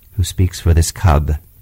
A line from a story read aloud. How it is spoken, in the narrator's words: said Akela